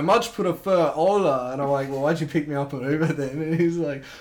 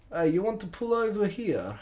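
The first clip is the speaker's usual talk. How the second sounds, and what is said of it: Poorly done Russian accent. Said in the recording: “thick Russian beard, like accent and everything ... I fucked the accent up ... You fucked it up, man.”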